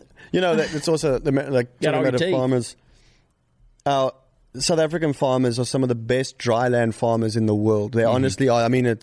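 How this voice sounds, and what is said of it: Non-American, South African-sounding accent. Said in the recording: “You can make an American farmer really good with that accent... you ain't from around here”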